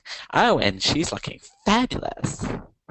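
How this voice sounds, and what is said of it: Hollywood reporter character voice. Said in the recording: “my Hollywood reporter impersonation.”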